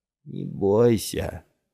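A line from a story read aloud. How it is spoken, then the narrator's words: Old man drawling. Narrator (Russian): протянул старик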